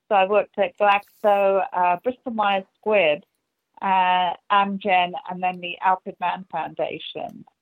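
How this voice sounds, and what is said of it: English accent. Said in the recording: “you can hear from the accent, uh, I'm from England.”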